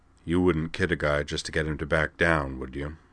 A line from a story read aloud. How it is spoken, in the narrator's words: he asked quietly